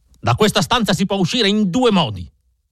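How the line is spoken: Shouting. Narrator (Italian): urlò

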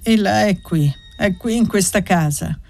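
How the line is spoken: Sad but firm voice. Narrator (Italian): ripeté Gantine con voce triste ma ferma

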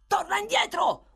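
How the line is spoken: Sudden yell. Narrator (Italian): urlò a un tratto Sykes

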